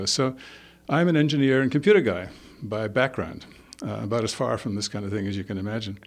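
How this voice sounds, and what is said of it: Scottish-born, English-educated accent. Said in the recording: “You probably can guess from my accent that I wasn't born here. I was actually born in Scotland, educated in England”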